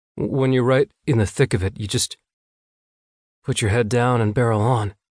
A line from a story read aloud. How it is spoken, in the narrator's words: he said